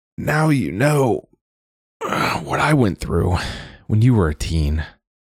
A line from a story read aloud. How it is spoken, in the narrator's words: Ada told her between yawns